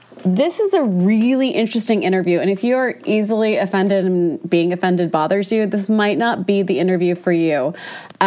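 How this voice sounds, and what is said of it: Stuffy, congested voice. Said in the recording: “sorry about my voice. I got that cold like 2 weeks ago and it refuses to leave. So apologies for my stuffy sounding voice.”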